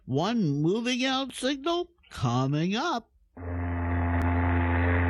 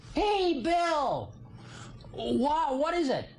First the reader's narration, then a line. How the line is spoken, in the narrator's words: I yelled back across the snow to him